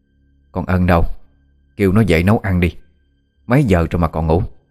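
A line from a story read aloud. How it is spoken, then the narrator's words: Old woman, harsh stressed. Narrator (Vietnamese): Bà Đan gằn giọng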